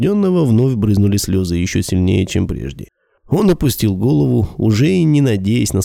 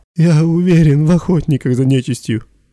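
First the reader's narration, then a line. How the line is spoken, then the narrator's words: Pleading again. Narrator (Russian): вновь взмолился Демьян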